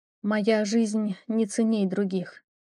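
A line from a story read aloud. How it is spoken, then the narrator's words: Quiet. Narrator (Russian): тихо произнесла я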